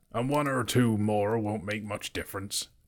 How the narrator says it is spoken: growled Beorn

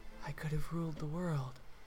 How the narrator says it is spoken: quietly say

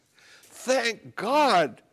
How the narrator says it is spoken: cried out

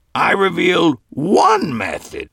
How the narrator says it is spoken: he said sharply

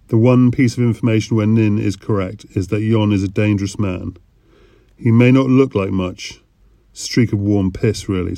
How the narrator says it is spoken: said Charlie

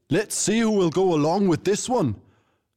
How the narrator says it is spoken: the tavern owner shouted

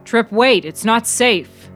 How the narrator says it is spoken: the policeman hollered after him

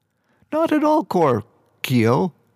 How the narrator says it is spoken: Kestrel laughed

